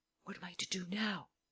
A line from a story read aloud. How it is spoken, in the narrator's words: The man whispered to Lupin